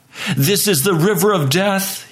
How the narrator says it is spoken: he cried

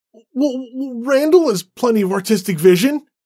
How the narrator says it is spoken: David exclaimed

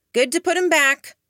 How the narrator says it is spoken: called out

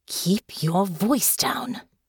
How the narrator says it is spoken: Delphinia hissed

